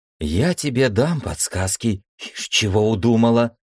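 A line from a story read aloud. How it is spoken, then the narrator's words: Angry hiss. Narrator (Russian): сердито зашипела на нее Дариса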